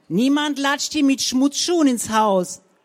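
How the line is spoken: Shouting after someone. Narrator (German): schrie Frau Zänker ihr hinterher

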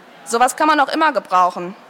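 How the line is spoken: Slurring drunkenly. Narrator (German): lallte er

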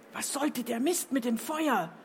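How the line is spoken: Hissed, barely audible. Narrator (German): zischte Lovis dem strahlenden Chefjuror ins Gesicht, sodass nur dieser es hören konnte

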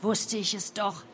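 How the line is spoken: Murmured. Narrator (German): murmelte

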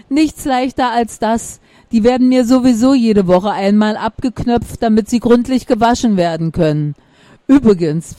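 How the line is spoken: Hearty laughter. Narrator (German): lacht Maximilian herzlich

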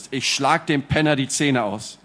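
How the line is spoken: Growling. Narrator (German): knurrte Lucas

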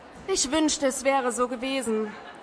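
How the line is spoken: Answering with a sigh. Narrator (German): antwortete Lysanna und seufzte

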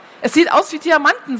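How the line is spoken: Plain. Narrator (German): sagte Mick

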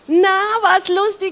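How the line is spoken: Called out. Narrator (German): rief der König

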